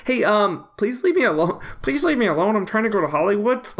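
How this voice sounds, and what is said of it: Good Kermit the Frog voice. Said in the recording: “can do a good Kermit impression ... Pretty good.”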